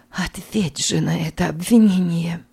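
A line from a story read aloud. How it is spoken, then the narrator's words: Slow, dry, barely audible. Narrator (Russian): Санна говорила медленно, сухим тоном, почти неслышно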